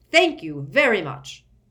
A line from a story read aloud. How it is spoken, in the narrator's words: snarled Fudge